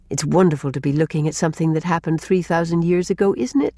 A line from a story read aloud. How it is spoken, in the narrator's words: said Rilla